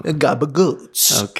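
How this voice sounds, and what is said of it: Put-on accent. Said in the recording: “The accent is impeccable. The accent is impeccable.”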